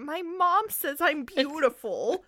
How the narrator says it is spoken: Ferd whined

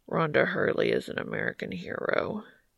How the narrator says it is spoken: Cass mumbles into Dean's shoulder

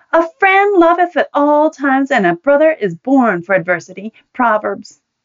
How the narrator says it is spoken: indignantly bellowed for all to hear

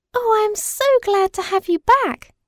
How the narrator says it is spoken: cried Madeline

